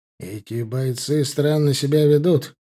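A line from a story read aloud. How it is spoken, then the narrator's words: Muttered. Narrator (Russian): пробурчал Рюмшин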